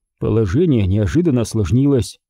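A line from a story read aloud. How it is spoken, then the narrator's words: Plain. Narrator (Russian): сказал я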